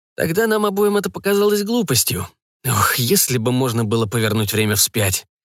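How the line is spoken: Heavy sigh. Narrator (Russian): тяжело вздохнул Жак

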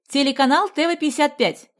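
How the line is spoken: Shouting. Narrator (Russian): кричал один с микрофоном

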